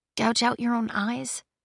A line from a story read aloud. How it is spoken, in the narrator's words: She said softly